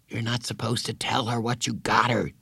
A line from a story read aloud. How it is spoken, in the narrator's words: Jeff whispered